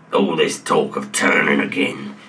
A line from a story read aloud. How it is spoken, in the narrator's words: he snarled